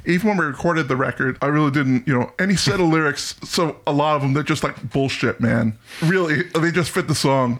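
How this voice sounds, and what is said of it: Impression of Phil. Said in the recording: “your Phil impression”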